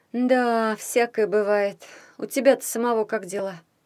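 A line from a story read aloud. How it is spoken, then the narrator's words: Sad sigh. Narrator (Russian): Вздохнула Зозо, грустно глядя в окно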